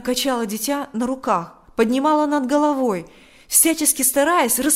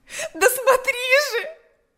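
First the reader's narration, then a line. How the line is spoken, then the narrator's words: Shout. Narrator (Russian): закричала она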